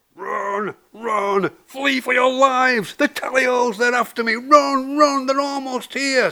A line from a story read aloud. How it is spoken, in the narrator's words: screamed the fox